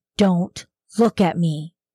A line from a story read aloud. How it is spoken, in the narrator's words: in a growl, he said